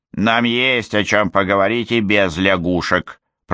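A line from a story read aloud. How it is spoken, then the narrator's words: Grumbling. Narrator (Russian): проворчала Момби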